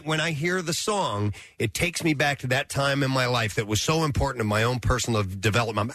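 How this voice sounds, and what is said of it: Choked-up emotional voice. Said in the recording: “I'm actually getting a little choked up here when I'm talking”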